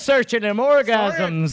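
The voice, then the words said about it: Put-on Irish accent. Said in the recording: “what accent it's best said in, because right now I'm on Irish”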